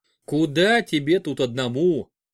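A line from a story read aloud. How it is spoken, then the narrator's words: Snorting. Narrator (Russian): хмыкнув, сказал он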